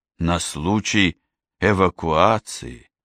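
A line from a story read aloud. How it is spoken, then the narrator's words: Thoughtful repetition. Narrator (Russian): задумчиво повторила Ева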